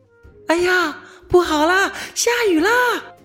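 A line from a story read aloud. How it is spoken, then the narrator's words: Shouting. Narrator (Chinese): 美美猫就喊了起来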